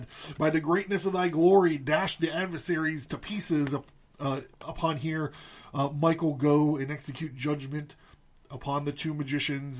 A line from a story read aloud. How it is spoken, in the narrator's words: Gabriel cried up to God